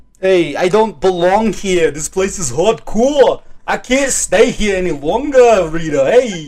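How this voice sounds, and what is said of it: Inconsistent put-on New York accent. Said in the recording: “Your accent's all over the place. ... a New York accent”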